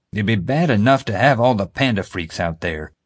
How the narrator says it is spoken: JJ was grumbling

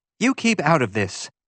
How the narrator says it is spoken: she snapped

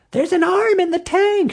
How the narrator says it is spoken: she shrieked

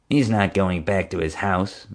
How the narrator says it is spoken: Marge muttered

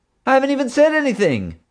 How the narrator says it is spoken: Hank cried

